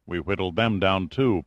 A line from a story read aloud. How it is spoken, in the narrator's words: Pitt muttered grimly